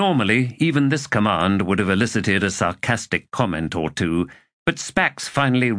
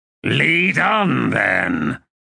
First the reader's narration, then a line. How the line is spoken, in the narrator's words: he replied in a growl